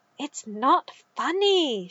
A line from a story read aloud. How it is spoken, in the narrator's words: she hissed in his ear